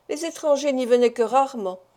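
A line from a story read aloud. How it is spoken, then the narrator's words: Replied with a sigh. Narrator (French): répliqua Maître Koltz avec un soupir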